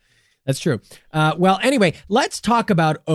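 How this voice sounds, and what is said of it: Usual voice. Nothing is said of it.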